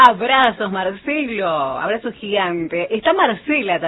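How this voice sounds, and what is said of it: Usual voice. Nothing is said of it.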